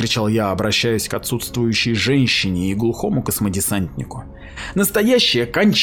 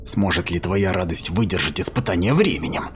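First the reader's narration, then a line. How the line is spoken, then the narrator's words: Whispered. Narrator (Russian): прошептал я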